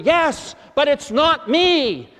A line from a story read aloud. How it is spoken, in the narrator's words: Augustine breaks into a full run the other way and shouts over his shoulder